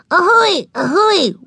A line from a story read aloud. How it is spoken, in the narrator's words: wailed Ramona